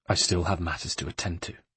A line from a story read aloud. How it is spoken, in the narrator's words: he said grimly